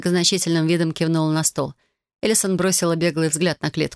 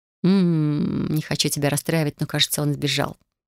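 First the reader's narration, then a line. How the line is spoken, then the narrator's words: Muttering. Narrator (Russian): пробормотала она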